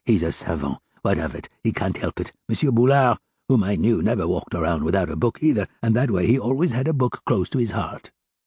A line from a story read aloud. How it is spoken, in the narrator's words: answered Monsieur Gillenormand, who had heard her in the same low tone